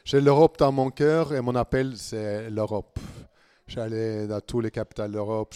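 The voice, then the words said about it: Norwegian accent speaking French. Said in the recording (French): “vous entendez que j'ai un accent du Nord, ce n'est pas le ch'ti. ... Je suis norvégien”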